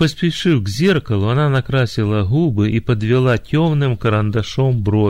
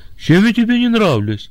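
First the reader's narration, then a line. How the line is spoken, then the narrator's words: Frightened question. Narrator (Russian): она испуганно спросила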